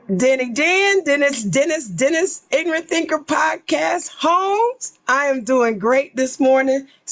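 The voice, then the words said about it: Slightly hoarse voice. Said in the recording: “Excuse the voice. It's a little hoarse ... The cold trying to get me.”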